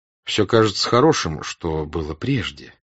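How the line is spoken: Plain. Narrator (Russian): сказал он

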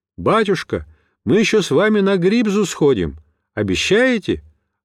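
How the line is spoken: Ringing shout. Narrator (Russian): Ванечка крича звонким голосом

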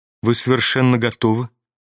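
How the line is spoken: Quiet, seemingly calm. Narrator (Russian): заметила она тихо и как бы спокойно

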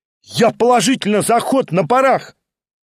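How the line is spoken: Delighted schoolboy shouting. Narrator (Russian): крикнул в восторге гимназист

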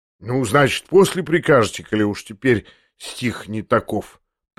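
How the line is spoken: Drawn-out smirking mutter. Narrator (Russian): пробормотал он еще длиннее, ухмыляясь

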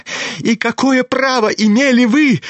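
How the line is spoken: Shrill unnatural shriek. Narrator (Russian): завизжал самым неестественным голосом Ипполит

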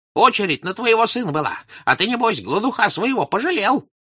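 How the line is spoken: Sudden rapid old man, attacking. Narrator (Russian): вдруг быстро заговорил маленький старичок, нападая

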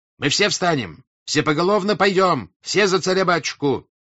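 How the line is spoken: Shouting. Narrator (Russian): кричал

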